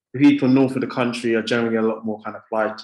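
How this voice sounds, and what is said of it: British accent. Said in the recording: “you got a British accent”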